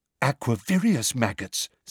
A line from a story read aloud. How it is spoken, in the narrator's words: said Luna excitedly